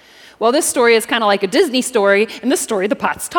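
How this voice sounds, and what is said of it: Usual voice. Nothing is said of it.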